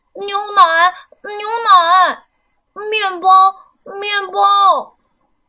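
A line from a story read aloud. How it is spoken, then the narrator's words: Loud shout. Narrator (Chinese): 笨狼 他真的大声喊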